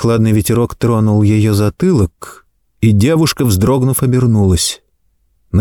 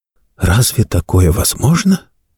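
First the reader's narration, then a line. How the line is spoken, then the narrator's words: Surprised whisper. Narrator (Russian): Анна ... удивленно прошептала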